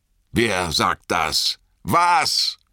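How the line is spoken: Roar. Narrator (German): brüllte Frodo

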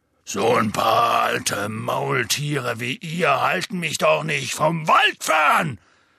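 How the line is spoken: Loud. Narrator (German): sagte Hagrid laut

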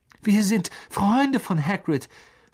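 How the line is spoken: Calling out. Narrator (German): rief Harry

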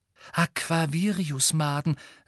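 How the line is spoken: Excited. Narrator (German): sagte Luna aufgeregt

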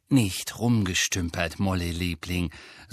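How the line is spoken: Plain. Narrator (German): sagte Mr

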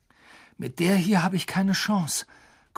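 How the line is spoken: Panting. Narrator (German): keuchte Harry

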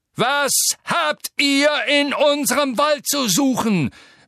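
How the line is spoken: Roaring centaur. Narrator (German): brüllte der graue Zentaur mit den harten Gesichtszügen

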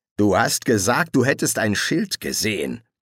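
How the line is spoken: Grumbled. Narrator (German): brummte er

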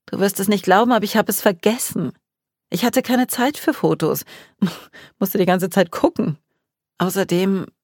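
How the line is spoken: Sighing. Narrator (German): seufzte

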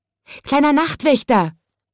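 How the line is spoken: Calling out. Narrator (German): rief es

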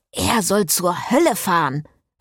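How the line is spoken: Priest hissing angrily. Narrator (German): fauchte der Priester

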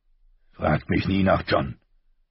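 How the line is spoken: Icy cold voice. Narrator (German): sagte er kalt wie Eis

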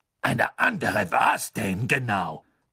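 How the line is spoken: Cold question. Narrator (German): fragte Madame Maxime kalt

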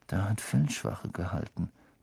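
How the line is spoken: Murmuring. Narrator (German): murmelte Ron

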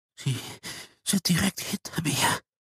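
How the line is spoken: Whispered. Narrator (German): flüsterte Herr Nadel

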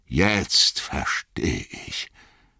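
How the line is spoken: Murmured. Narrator (German): murmelte Gandalf

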